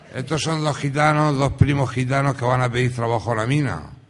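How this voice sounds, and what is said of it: Murcian Spanish accent. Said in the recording (Spanish): “Soy de Murcia, por eso tengo ese acento así medio tal y cual.”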